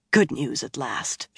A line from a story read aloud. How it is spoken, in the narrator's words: she breathed, a smile blooming on her face